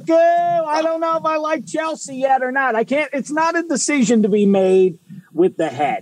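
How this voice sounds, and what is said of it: Pittsburgh Yinzer accent. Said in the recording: “that Yinzer accent.”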